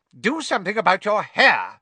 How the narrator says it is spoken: Aunt Petunia snapped

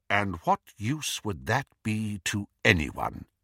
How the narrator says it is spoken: said Dumbledore coldly

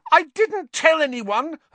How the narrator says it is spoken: Hermione shrieked

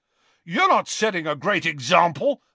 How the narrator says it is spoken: McLagan shouted back, red-faced and furious

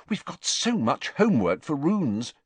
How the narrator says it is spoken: she said anxiously

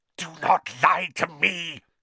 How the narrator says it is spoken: hissed the second voice

